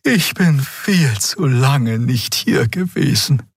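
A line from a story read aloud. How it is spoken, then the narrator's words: Sighing. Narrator (German): seufzte Xea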